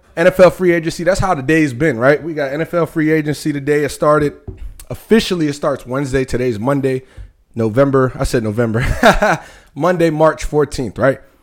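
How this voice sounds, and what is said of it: Breathless, winded speech. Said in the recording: “I'm damn near out of breath ... I'm out of breath.”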